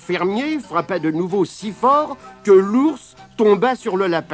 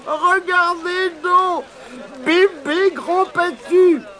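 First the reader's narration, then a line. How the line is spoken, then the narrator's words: Monkey shouting. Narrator (French): criait le singe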